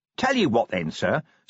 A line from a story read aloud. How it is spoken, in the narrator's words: said Nobby cheerfully